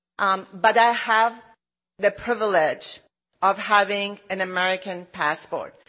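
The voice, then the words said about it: Non-American foreign accent. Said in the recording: “you can hear my accent, I'm a proud immigrant too.”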